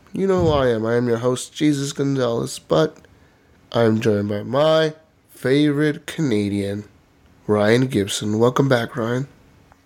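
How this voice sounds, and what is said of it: Sick, slightly under-the-weather voice. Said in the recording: “I'm a little sick, man. I don't know if you could tell. You could hear it in my voice. ... You sound a little under the weather.”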